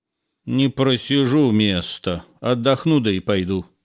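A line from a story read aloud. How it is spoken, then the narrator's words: Gentle grumble. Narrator (Russian): Чтобы не напугать зря ребенка, Самотоха проворчал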